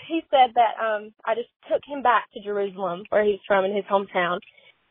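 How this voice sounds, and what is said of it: Speaks with a noticeable accent. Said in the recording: “I love her accent”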